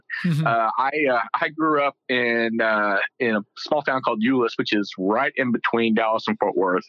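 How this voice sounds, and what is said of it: Texas accent. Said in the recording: “you probably can already tell, but with my Texas accent”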